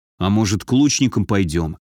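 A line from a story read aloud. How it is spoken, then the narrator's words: Quiet suggestion. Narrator (Russian): тихо предложил Антон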